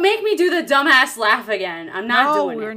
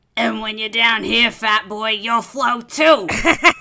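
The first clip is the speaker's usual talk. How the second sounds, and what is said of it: Exaggerated creepy character voice. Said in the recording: “What is that accent you're doing? ... It's Pennywise. ... So bad.”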